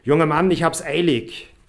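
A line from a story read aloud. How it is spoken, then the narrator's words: Calling out to him. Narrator (German): rief ihm dieser zu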